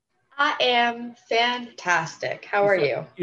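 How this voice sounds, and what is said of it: Southern-sounding accent. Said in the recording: “You sounded kind of southern there.”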